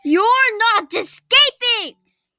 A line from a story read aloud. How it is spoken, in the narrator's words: he bellowed